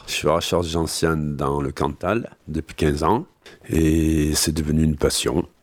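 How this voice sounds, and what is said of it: Cantal regional French accent. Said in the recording (French): “avec son accent cantalien”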